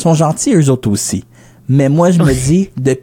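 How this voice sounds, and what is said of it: Usual voice. Nothing is said of it.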